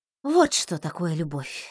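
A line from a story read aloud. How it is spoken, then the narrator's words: Sighing. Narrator (Russian): вздохнула я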